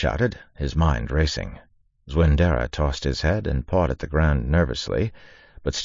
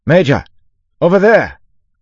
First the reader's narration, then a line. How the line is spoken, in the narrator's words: Lorien shouted